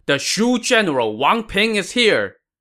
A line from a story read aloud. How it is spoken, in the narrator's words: a loud cry rang out, accompanied by the loud shout